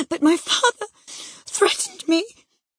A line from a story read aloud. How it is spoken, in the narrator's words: gasped the boy